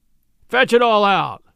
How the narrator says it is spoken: Shunk Wilson thundered

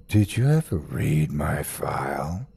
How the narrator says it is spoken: he asked softly

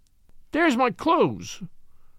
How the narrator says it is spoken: she half whimpered, the feminine for the moment prevailing

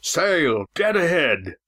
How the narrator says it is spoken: shouted Walt

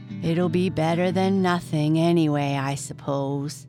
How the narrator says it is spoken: said Jack gloomily

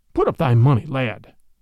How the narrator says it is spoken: cried the other quickly

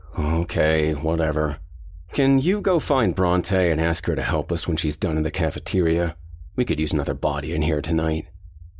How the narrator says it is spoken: slumped his shoulders and grunted

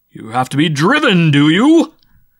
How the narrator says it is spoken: livid with sudden anger and his voice almost a scream

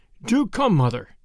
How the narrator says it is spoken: Sam begged

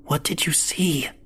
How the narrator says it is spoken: whispered

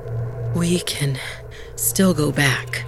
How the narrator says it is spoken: Bala panted

